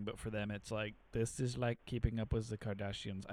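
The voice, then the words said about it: Put-on German accent. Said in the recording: “I don't know why they're German. ... that was a German accent”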